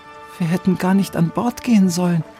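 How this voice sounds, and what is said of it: Whispering. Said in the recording (German): “flüsterte”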